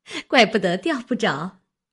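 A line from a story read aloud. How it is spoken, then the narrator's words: Laughing. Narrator (Chinese): 李文笑道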